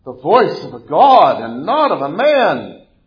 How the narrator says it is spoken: And a people kept shouting

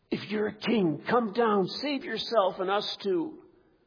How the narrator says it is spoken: the other two crucified men between groans are gasping

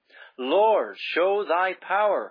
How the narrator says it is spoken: her soul cried out

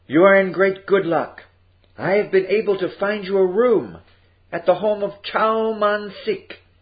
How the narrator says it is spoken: said happily

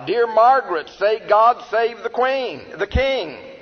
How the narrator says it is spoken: One of the bystanders cried out

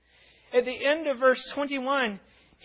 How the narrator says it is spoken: he exclaims with joyful gratitude

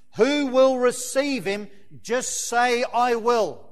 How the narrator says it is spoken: one man shouted out from the congregation

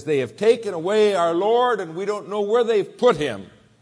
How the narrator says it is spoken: frantically she runs to Peter and John, and she says

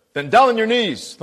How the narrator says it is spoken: thundered the officer

